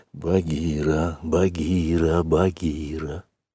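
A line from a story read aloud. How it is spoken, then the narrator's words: Insistent whisper. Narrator (Russian): шептал мальчик настойчиво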